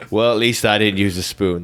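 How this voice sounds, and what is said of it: Imitates another person's voice. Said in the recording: “It's Alan Rickman.”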